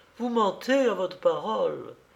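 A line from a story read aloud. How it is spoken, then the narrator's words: Desperate cry. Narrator (French): cria-t-elle d'une voix désespérée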